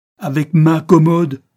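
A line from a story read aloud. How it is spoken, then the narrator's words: Roared. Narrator (French): rugit M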